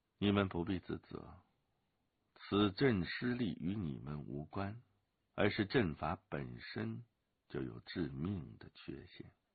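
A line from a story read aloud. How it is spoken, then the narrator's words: Calm, flat. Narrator (Chinese): 陈随云淡淡的说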